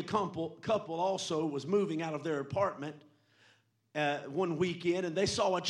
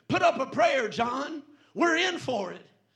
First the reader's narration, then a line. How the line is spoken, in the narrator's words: Terrified, one shouted unto the other